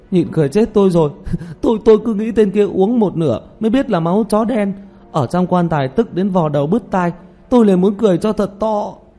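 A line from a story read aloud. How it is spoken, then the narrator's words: Coughing, bursting into laughter. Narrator (Vietnamese): Tiểu Mã ho thêm vài cái, rồi đột nhiên xì một tiếng, bật cười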